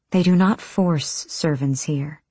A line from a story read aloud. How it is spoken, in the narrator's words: Irene said quietly